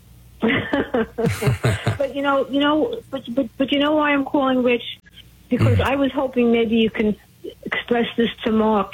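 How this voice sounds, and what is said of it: Brooklyn accent. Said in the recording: “I remember your voice. It sounds like you're from Brooklyn.”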